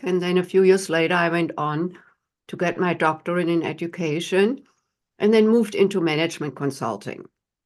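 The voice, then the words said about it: German accent. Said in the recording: “as everyone who is listening can tell from my accent, I was not born here in the United States. I'm from Germany”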